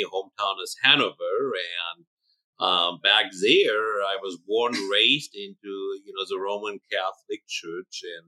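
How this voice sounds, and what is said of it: German accent. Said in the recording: “as you hear in my accent, I was born and raised in Germany, in north central Germany.”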